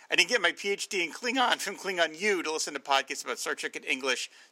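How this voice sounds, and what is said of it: New Jersey accent. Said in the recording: “You've got that New Jersey accent in there”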